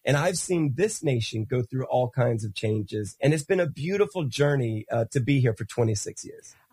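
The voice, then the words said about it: American accent. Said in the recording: “Don't be fooled by my accent. I am not your traditional Yankee”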